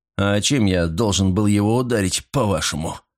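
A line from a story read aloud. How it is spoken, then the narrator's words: Rude retort. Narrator (Russian): грубо ответил я вопросом на вопрос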